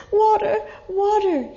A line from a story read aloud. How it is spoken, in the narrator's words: he cried